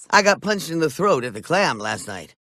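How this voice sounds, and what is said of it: Peter Griffin with Kathleen Turner's voice. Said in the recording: “what's wrong with your voice? ... Now I sound exactly like Kathleen Turner.”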